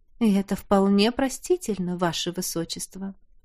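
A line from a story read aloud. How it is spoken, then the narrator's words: Sudden purring woman. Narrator (Russian): мурлыкнула вдруг леди Эльмора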